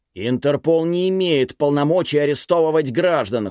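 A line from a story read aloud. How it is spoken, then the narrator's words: Roaring, quarrelsome. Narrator (Russian): Хунь Ви проревел это так, словно переругивался со своим боссом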